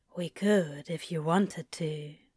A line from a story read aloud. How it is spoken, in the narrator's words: Crowley says quietly